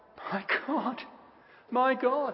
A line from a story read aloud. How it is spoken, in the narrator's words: the agony of that, the misery it's cast upon his soul, so much so that he cries out